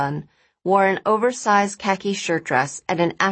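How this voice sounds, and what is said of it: Usual voice. Nothing is said of it.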